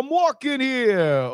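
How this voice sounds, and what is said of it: Put-on New Yorker accent. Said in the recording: “Can you try to do a New Yorker accent? ... That's good.”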